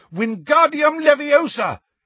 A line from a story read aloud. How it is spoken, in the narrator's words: he shouted